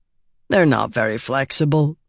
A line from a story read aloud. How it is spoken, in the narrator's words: said blandly